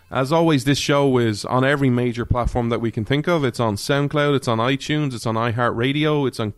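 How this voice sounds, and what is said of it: Irish accent. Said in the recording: “likes an Irish accent”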